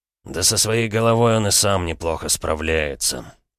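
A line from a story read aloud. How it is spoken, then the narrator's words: Sigh. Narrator (Russian): вздохнул Полозов-старший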